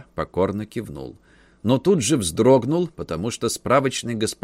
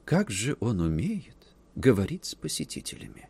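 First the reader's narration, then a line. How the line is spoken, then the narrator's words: Whispered. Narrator (Russian): прошептала барышня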